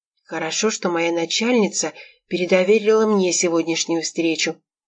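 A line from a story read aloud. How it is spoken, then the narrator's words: Whisper. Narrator (Russian): прошептал Макс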